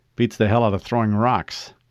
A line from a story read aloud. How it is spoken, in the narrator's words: he replied